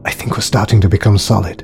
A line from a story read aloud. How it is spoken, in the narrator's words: he whispered to Chris